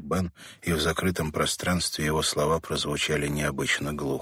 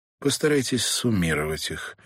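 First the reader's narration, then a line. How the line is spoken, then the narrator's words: Dry advice. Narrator (Russian): сухо посоветовал Каллахан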